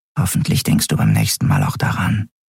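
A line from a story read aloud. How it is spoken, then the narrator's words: Whisper. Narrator (German): flüsterte Nelen ihr zu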